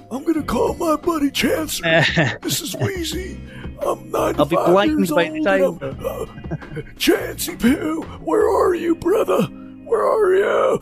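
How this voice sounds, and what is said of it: Old man voice. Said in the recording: “That was my old man voice when we're old and talking shit”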